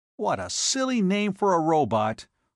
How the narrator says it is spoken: he exclaimed

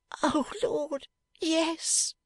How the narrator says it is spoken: moaned Fledgeby

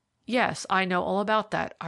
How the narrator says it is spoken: replied

